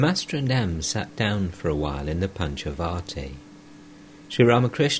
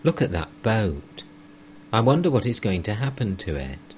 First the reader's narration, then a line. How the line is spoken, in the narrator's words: exclaimed like a child